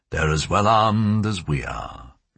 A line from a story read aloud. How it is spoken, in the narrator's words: General Moncada sighed